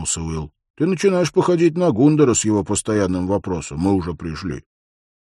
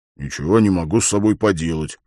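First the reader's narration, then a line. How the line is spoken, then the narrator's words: Grumbling. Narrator (Russian): проворчал Хорос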